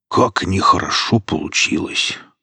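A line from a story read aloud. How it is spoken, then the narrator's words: Embarrassed mumble. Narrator (Russian): смущенно промямлил сталкер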